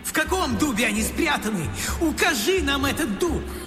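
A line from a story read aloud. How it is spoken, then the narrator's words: Shouting, losing patience. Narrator (Russian): Оф не выдержал и закричал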